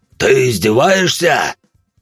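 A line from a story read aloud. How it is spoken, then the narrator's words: Father yelling in English. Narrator (Russian): орал отец на английском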